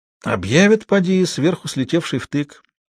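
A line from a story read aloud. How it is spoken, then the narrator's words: Thoughtful. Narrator (Russian): морской змей промолвил задумчиво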